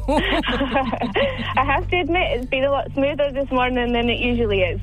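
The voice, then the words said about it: Scottish accent. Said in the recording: “Is that a Scottish accent you have there”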